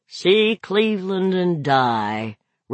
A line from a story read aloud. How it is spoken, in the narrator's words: Roger said gloomily